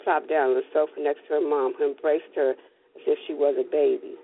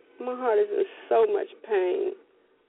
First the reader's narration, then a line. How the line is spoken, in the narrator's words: Nina sobbed